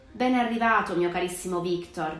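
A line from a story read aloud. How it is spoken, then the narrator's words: Plain. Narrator (Italian): disse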